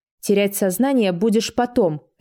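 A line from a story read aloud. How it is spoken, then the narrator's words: Barked. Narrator (Russian): рявкнула я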